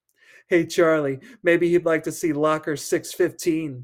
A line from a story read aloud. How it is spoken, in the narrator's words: Steve said, giggling